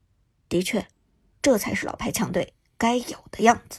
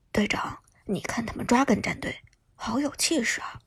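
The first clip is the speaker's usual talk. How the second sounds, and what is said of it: Quiet, hushed speech. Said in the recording (Chinese): “小声在苏哲耳边说道”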